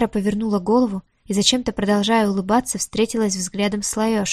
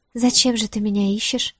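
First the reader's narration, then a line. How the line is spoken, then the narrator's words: Calm question. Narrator (Russian): спросила спокойно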